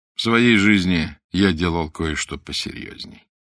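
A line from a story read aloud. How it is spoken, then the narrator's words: Tender, affectionate. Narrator (Russian): ласково сказал он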